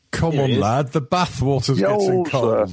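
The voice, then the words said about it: Fake Northern English accent. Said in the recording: “Why are we talking in fake Northern accent?”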